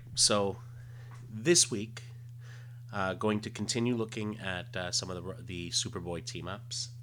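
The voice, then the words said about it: Quiet, hushed voice. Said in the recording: “I kind of do the quiet voice, but that's usually because when I do these ones, it's really late at night and I don't want to wake up the family”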